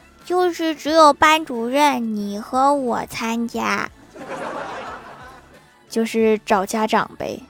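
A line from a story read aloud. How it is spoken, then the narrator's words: Quiet voice. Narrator (Chinese): 郭晓霞小声地说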